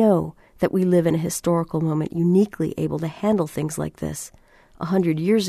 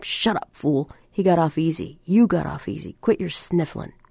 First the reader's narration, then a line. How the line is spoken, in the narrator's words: T snapped